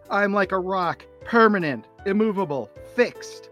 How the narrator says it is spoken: He yells into the distance

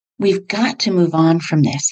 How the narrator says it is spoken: he said

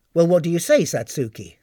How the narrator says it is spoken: asked the captain

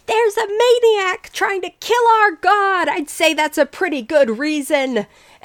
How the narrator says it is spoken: Somebody from the crowd yells out

